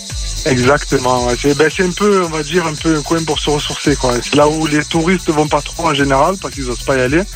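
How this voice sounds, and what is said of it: Warm southern French Marseille accent. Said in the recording (French): “Vous habitez à côté de Marseille. ... Vous nous mettez du soleil avec votre bel accent.”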